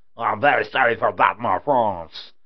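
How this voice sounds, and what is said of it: Put-on French accent. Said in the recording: “Pretty awesome French accent I just did there”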